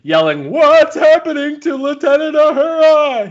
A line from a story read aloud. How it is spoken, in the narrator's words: He screams